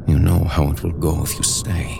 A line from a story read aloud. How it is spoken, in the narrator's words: Holdfast Mohammed said in a low voice